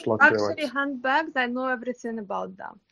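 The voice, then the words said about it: Put-on Russian woman's accent. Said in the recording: “That's my Russian lady impression”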